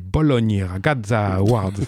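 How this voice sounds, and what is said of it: Clumsy put-on Italian accent. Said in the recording (French): “J'essaie de faire l'accent, mais je suis nul en italien... Tu passes d'un accent à l'autre.”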